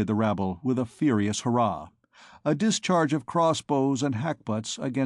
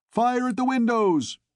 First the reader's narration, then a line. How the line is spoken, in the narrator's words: shouted Clopin